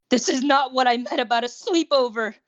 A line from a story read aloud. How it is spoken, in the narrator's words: Izuku wailed internally